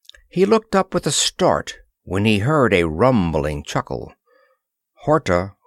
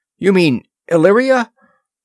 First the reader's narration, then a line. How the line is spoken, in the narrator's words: Horta chuckled